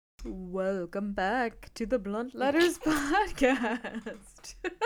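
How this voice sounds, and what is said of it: Spooky voice. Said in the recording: “just trying out my spooky voice”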